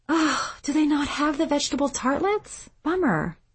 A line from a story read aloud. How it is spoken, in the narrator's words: they'd sigh